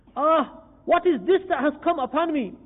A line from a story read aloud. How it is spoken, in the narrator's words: Ibrahim bin Adham alayhi rahma cried